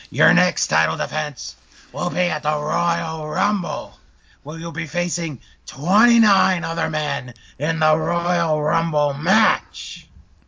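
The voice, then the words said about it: Impression of Vince McMahon. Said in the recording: “do my Vince voice.”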